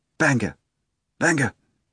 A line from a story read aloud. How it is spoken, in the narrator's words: the procurator cried out weakly